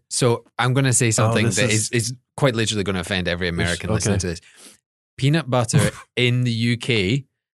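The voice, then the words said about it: Speaks with a noticeable accent. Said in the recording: “voice... Your accent is highly glorifies the Lord”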